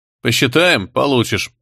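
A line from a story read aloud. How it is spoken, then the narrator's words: Stern reply. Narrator (Russian): строго ответил Лебра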